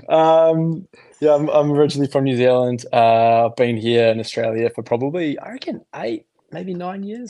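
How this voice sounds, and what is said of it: Kiwi accent with slight Aussie twang. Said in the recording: “You've got a different accent to us... my Kiwi accent has softened a little bit, and I might be getting a little bit of an Aussie twang”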